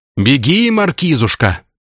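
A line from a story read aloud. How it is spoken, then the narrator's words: Cursing shout. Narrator (Russian): Матерясь, кричал вслед граф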